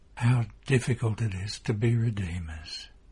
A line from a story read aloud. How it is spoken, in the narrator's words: Mary whispering